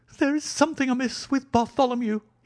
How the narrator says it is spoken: he cried

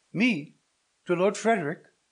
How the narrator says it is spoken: cried Matilda

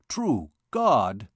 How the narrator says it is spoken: exclaimed the captain

